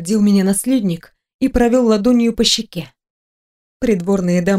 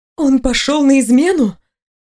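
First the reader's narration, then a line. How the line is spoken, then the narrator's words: Astonished exclamation. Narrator (Russian): изумленно воскликнула я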